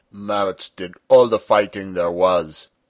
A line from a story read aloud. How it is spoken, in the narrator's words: said Peter sulkily